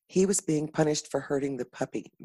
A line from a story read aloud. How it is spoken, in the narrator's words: Madeline whispered